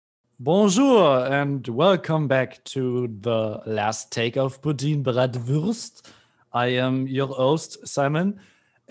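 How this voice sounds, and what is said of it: Attempted put-on French accent. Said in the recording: “Does it annoy you if I speak with a French accent? ... Is that a French accent? ... I'm trying to, yeah.”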